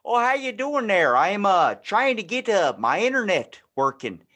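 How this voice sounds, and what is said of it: Put-on unidentifiable accent. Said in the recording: “I don't know what accent that was.”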